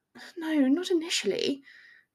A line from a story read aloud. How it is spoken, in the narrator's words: Hermione conceded, sighing